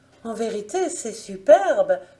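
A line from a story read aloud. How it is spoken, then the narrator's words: Joyful exclamation. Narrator (French): s'écria-t-elle au comble de la joie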